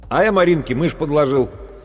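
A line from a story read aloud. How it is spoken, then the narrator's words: Loud. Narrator (Russian): громко сказал Серега Цаплин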